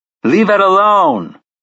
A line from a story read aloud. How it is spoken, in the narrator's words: he shouts at Bullet